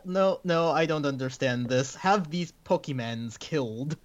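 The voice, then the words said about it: Put-on Russian accent. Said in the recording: “That was a pretty good Russian accent.”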